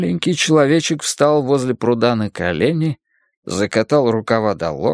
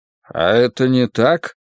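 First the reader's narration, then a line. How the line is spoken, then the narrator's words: Gloomy question. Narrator (Russian): мрачно спросил я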